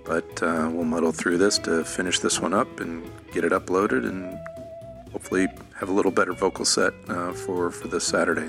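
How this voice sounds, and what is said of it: Rough, allergy-strained voice. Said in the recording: “pardon my voice, kind of getting hammered with the good old April allergies”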